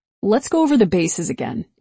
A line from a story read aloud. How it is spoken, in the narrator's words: he said, in a kind but officious tone